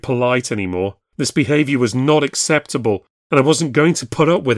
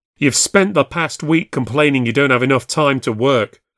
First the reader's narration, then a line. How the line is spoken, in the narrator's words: was shouting now, and to hell with it